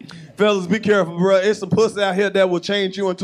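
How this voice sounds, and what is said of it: Usual voice. Nothing is said of it.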